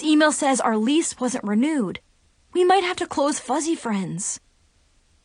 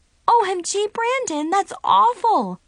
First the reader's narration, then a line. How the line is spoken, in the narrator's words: I exclaimed